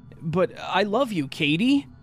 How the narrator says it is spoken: his face dropped to a frown, and he shouted

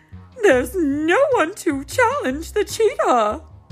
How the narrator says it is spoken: exclaimed Mayor Goodway

